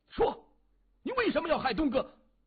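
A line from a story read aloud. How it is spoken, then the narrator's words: Loud shouting. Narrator (Chinese): 土山大声的喊着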